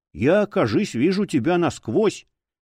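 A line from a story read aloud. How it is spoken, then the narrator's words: Nervous laugh. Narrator (Russian): старина Лоу нервно хохотнул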